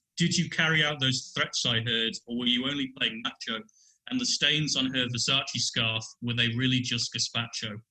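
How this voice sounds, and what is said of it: Put-on British accent. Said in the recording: “in my best British voice ... We want you to use your best British voice, please.”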